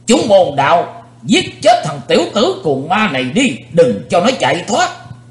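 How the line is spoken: Old man's sudden shout. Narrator (Vietnamese): Đột nhiên lão nhân gầy ốm xoay mình đến đối diện cùng Chí Tôn quát to

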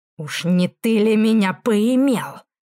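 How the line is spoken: Growled. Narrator (Russian): прорычал Рорк

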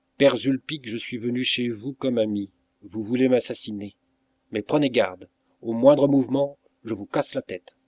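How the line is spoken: Cold. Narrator (French): Je me mis en garde en lui disant froidement

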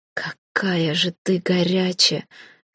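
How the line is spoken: Pleasured exhale. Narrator (Russian): с наслаждением выдохнул он

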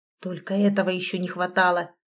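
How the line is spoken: Grumbled. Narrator (Russian): проворчал Дима

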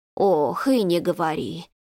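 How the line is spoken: Sighing. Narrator (Russian): вздохнула Зинаида

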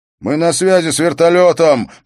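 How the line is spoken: Shouting over noise. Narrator (Russian): прокричал один из них сквозь шум

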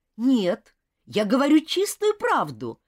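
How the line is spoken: Exclamation. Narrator (Russian): воскликнул Роберт

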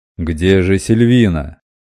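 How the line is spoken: Booming over the din. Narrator (Russian): Перекрывая общий гомон, прогремел голос мастера Робинтона

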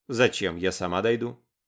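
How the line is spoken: Cold. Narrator (Russian): холодно ответила Лара

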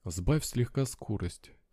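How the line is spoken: Quiet. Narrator (Russian): тихо сказала Тия

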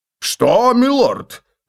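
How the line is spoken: Exclaimed. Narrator (Russian): воскликнул лорд Пфальцкаппель

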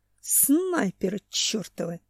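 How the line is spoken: Hiss. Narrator (Russian): прошипел Семен

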